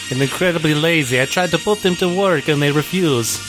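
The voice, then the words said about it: Inconsistent put-on accent. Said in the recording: “Your accent comes and goes. It's very odd.”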